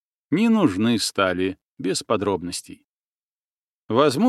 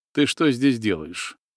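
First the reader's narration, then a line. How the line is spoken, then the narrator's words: Muffled, hollow voice. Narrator (Russian): глухо произнес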